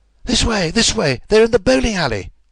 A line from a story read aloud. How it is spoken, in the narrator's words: cried the stranger